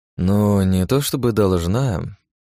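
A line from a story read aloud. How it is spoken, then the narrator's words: Drawling. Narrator (Russian): протянул я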